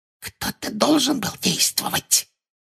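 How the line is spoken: Whispering. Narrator (Russian): прошептала Амбридж

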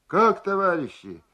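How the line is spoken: Rousing shout. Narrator (Russian): для поднятия духа крикнул

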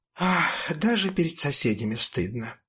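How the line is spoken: Mother sighing. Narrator (Russian): вздохнула мама

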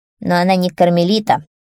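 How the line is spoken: Casual muttering hare. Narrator (Russian): заяц вдруг пробурчал себе под нос, словно невзначай

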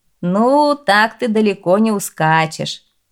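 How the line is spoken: Innkeeper laughing. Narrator (Russian): засмеялся трактирщик

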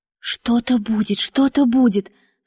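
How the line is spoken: Anxious whispering group. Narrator (Russian): в тоске шептали более робкие из нас

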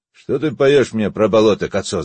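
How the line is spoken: Shouted. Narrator (Russian): закричал он

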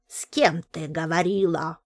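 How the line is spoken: Angry question. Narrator (Russian): злобно спросила она

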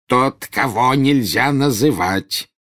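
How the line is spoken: Growling. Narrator (Russian): прорычал Фадж

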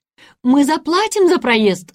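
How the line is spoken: Yelling. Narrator (Russian): заорал Карл

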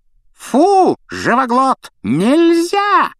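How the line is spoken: Witch's shriek. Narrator (Russian): завопила ведьма

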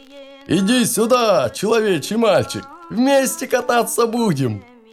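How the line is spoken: Shouting. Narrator (Russian): закричал

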